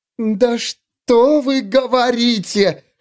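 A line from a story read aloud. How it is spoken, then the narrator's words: Shrieking in someone's face. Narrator (Russian): завопила Савин ему в лицо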